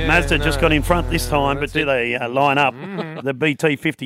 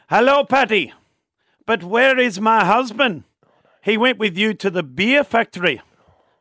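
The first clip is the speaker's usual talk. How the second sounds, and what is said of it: Put-on Irish accent. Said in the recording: “A bit of Irish joke... Accents”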